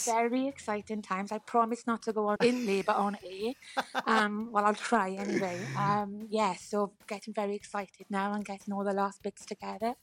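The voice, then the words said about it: Welsh accent. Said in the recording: “the Welsh accent ... It's a distinctive accent”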